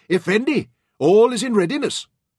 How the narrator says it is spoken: cheerfully, he shouted

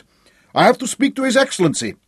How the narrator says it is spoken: Hop shouted

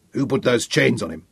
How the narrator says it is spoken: growled Sean

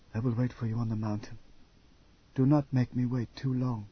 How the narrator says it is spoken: leaned close and whispered

